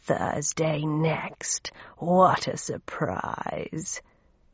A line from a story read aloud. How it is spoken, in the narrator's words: said Raum, in a guttural, rasping voice that sounded like a box of rusty nails